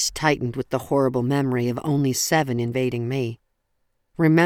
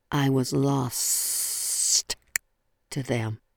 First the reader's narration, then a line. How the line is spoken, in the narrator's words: my grandmother hissed, her voice reverberating in my gut